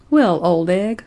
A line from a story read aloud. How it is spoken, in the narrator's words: said Betty cheerfully